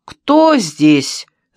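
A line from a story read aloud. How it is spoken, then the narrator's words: Shouting. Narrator (Russian): закричал он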